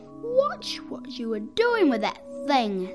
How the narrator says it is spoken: snapped

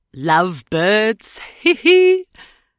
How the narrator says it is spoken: Pym chuckled

